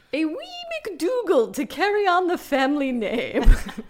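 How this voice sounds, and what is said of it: Older woman's mid-Atlantic accent. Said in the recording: “Your bunny isn't bad. ... generic kind of British person ... A mid-Atlantic. ... doing a mid-Atlantic accent, but older.”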